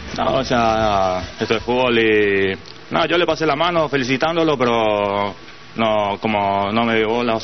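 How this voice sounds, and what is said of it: Paraguayan Spanish accent. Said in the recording (Spanish): “Qué locura el acento paraguayo”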